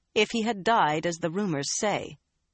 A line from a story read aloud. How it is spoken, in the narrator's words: pale-cheeked Carlinia cut in icily